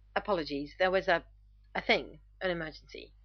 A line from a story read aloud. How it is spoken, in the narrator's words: Rodney stutters